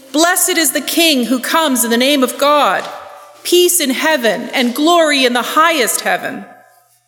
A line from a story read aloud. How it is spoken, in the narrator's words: They were shouting and singing